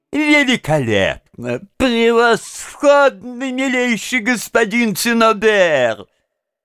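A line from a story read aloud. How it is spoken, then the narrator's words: Loudest ecstatic yell. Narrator (Russian): Мош Терпин громче всяк завопил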